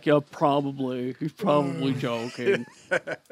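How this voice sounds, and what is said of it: Imitates another person's voice. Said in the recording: “good Rhett impersonation ... Sound just like ... Rhett. ... Just like him.”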